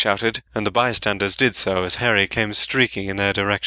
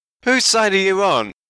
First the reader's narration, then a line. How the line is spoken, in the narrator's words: Ron yelled in outrage